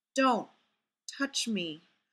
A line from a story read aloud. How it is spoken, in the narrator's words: Fraser murmured against Ray's mouth